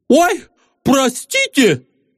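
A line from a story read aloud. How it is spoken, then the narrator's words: Exclamation. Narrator (Russian): воскликнул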